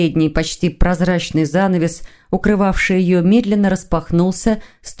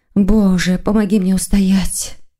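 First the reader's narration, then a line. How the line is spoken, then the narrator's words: Sighing. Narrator (Russian): вздохнула Маргарита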